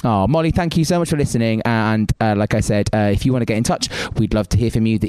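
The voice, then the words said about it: Welsh accent. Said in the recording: “It's super nice to hear ... Welsh accent. As a fellow Welshie”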